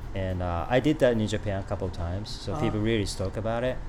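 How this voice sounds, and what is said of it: French accent. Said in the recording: “excuse my French accent”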